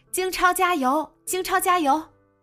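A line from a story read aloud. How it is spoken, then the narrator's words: Girl cheering loudest, unembarrassed. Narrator (Chinese): 女孩一点也没觉得不好意思，反而喊得最起劲儿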